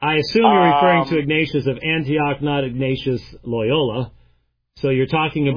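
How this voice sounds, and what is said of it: Usual voice. Nothing is said of it.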